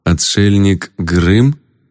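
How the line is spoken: Uncertain question. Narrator (Russian): неуверенно спросил я

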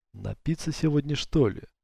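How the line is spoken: Mutter. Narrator (Russian): пробормотал Павел

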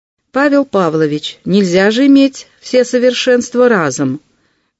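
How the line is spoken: Loud teasing. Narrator (Russian): громко поддразнила Мария Никитишна

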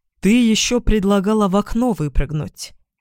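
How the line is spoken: Gloomy reminder. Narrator (Russian): напомнил Иван мрачно

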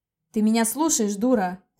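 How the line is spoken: Barked. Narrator (Russian): рявкнул Рик

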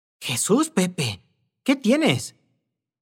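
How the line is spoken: Woman's anxious exclamation. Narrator (Spanish): exclamó la señora con zozobra

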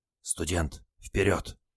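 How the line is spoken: Sailor's whisper. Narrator (Russian): шепнул моряк

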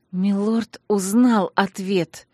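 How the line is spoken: Hissed through clenched teeth. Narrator (Russian): процедила я сквозь крепко стиснутые зубы

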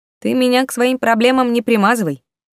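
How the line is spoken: Snide reply. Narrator (Russian): ехидно отозвался поганец

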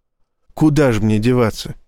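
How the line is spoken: Dejected question. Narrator (Russian): спросил Эндрю упавшим голосом

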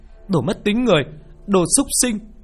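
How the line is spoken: Shouting. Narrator (Vietnamese): Nó la lên

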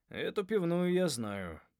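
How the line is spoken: Grumbling. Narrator (Russian): проворчал Джонни

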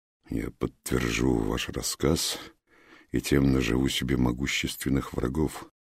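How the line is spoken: Muffled, hollow reply. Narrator (Russian): глухо ответил Хаджа

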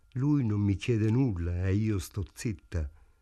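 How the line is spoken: Sadly. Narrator (Italian): disse tristemente Ida

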